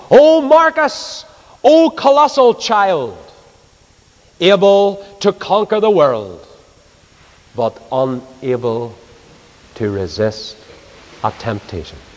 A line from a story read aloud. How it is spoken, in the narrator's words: his tutor once shouted at him in disgust